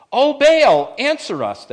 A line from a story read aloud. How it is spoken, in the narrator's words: they shouted